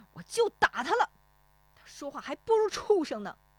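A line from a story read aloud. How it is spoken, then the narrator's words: Angry. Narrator (Chinese): 石丽华怒声说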